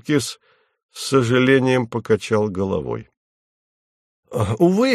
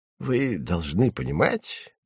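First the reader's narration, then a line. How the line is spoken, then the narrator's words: Soft. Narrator (Russian): мягко сказал он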